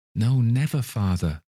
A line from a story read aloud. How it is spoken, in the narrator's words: they all cried again